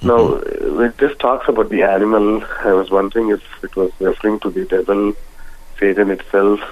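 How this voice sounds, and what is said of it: Slight accent, hard to understand. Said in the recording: “I'm having trouble understanding you. We gotta speak slower. ... You have a bit of an accent”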